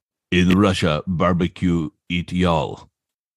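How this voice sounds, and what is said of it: Put-on Russian accent. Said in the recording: “thick accent, and it's a Russian accent ... you know how Russians talk?”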